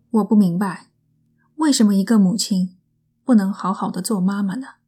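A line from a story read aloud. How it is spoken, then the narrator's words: Sighing lament. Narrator (Chinese): 戴内尔这样对母亲感叹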